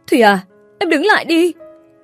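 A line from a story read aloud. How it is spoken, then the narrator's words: Sudden cry. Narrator (Vietnamese): Vân bất ngờ chỉ kịp kêu lên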